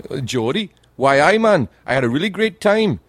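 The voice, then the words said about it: Attempted Geordie Newcastle accent. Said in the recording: “I can't do the accent. They've got the best accent ever. The people from Newcastle ... They speak like that ... I can't do the accent”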